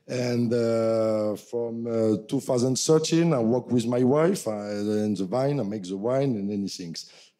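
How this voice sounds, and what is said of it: French accent. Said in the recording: “you earn my accent. I'm French from south of France.”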